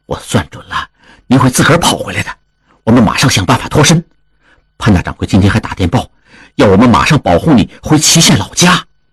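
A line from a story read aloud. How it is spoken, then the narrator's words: Low voice. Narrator (Chinese): 王宗宇继续低声说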